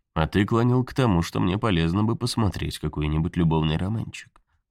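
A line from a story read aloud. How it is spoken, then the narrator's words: Calm. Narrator (Russian): спокойно сказал Хэл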